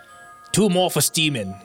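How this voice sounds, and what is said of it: Put-on New York accent. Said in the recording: “the one with the New York accent.”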